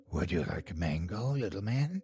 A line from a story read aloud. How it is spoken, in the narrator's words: In a raspy voice, she asked